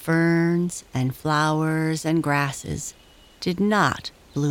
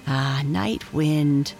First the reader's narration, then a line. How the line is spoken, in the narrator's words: replied the little tree softly